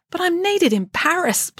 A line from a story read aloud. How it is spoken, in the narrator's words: pleaded Friday